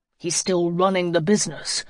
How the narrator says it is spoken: Matt growled

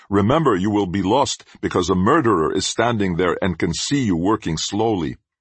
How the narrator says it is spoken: My friend next to me shouts

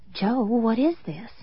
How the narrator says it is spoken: I said in an airless whisper

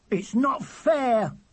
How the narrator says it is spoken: shouting angrily

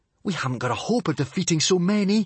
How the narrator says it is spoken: gasped Hiccup

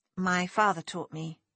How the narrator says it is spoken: she said

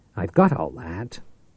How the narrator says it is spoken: Tate said sharply

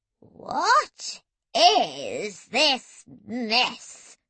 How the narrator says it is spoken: she quavered menacingly

